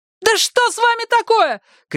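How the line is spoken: Shouting. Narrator (Russian): кричала Марго

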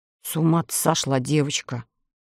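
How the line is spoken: Grumbling sailor. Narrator (Russian): проворчал моряк

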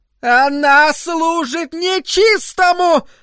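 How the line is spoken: Nervous yelling woman. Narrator (Russian): опять заорала миссис Кармоди, и на губах ее заиграла нервная улыбка

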